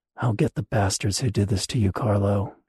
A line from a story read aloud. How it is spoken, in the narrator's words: she muttered